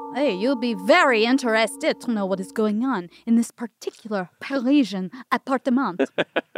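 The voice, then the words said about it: Put-on accent, judged good. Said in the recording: “How was my accent? ... It's beautiful. ... So good.”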